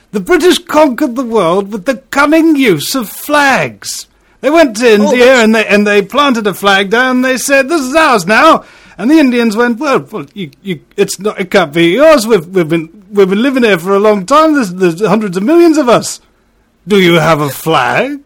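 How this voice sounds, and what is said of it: Eddie Izzard impression. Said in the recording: “that is a stunning impersonation, if I may say so. And I have a good ear for these things. And that is a bloody good Eddie Izzard.”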